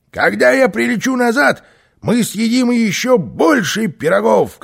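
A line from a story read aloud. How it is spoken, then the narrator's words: Shouted. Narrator (Russian): крикнул Карлсон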